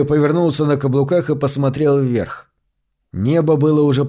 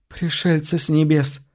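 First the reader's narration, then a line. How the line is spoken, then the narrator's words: Quiet strangled voice. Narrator (Russian): произнесла она тихим, сдавленным голосом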